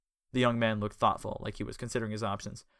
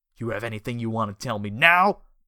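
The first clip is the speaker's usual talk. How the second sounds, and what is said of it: Thug voice with New York accent. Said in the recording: “Mr. New York accent”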